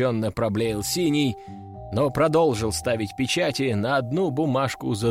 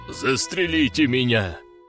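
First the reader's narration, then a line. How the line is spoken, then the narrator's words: Doomed groan. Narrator (Russian): обреченно простонал Синий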